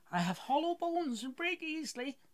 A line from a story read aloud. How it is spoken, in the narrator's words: gasped Henry